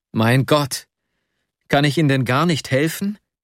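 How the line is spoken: Desperate cry. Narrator (German): rief ich ganz verzweifelt

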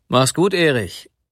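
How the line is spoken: Calling after someone. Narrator (German): rief er noch dem jungen Manne nach

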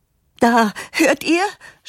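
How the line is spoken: Triumphant shout. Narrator (German): schreit die Mutter triumphierend

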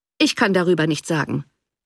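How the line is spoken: Replied coldly. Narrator (German): erwiderte der Baronet kalt

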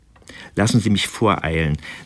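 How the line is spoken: Plain. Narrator (German): sagte Charlotte

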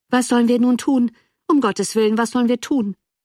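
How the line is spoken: Calling out. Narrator (German): rief Charles

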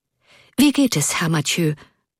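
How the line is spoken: Breathless hurried question. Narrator (German): fragte er hastig atmend

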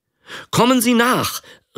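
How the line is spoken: Called out. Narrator (German): rief er

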